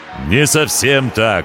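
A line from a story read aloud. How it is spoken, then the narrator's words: Ringing voice. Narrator (Russian): ответил пришелец звонким голосом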